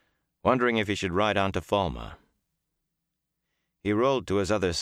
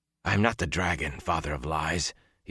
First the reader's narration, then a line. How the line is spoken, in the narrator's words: he said hoarsely